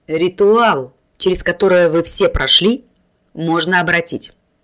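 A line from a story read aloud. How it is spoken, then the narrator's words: Calm announcement. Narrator (Russian): спокойно объявил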